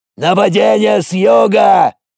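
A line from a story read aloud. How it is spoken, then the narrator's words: Yelled. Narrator (Russian): заорал Рор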